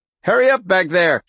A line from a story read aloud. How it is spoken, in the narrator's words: shouted Lenny